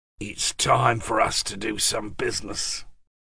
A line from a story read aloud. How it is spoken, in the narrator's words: Keeping his voice low so as not to be overheard below, James said